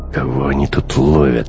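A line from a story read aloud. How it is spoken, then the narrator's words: Irritated question. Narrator (Russian): раздраженно спросил Бруно после очередной проверки документов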